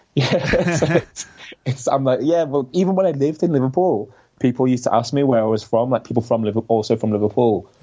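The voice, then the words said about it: Scouse (Liverpool) accent. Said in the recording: “I do have a bit of a Scouse accent ... your accent is so strong”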